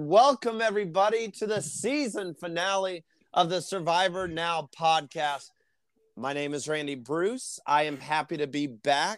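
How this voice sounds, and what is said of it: Weak voice from a cough. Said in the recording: “I still have a terrible cough. My voice is weak.”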